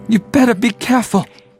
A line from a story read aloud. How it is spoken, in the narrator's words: he cried to Windrush